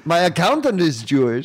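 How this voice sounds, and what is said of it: Put-on unidentified accent. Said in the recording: “I don't know what that accent is”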